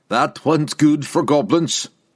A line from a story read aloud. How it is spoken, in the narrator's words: Wulfgar roared, his voice dull